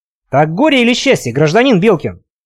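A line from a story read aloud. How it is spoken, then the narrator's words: Stern question. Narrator (Russian): строго спросил Илья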